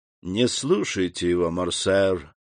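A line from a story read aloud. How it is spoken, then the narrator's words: Lazy speech. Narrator (Russian): лениво заговорил Дебре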